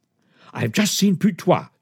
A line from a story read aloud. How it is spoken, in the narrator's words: exclaimed